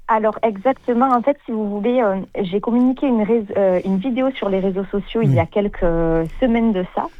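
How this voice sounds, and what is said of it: Southern French Sète accent. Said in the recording (French): “moi je suis originaire de Sète ... Mon accent me trompera toute ma vie”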